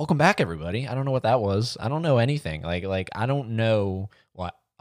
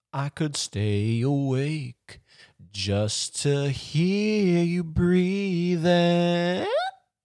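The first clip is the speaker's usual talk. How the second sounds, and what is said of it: Sung imitation of another person's voice. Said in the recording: “That is my Steven Tyler impression.”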